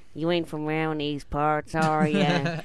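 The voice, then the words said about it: American Southern accent. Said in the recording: “I do a little bit of American stuff because my cousins, they moved to the south.”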